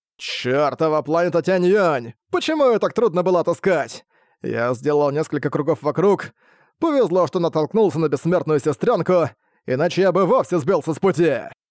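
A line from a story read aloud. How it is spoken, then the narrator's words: Grumbling. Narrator (Russian): Ворчал Сытунань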